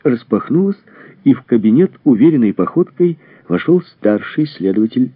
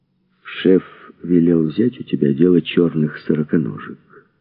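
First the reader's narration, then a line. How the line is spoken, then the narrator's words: Quiet. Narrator (Russian): сказал он негромко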